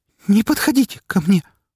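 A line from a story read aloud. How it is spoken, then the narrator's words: Trembling voice. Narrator (Russian): повторила она дрожащим голосом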